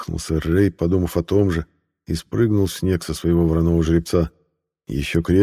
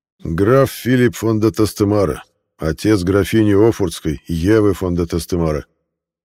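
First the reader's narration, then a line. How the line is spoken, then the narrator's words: Booming voice. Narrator (Russian): представил гулким голосом своего господина сэр Рэй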